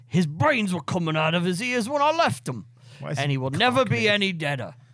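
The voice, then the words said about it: Old-timey tough ruffian accent. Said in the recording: “That's like my old-timey, like, ruffian accent.”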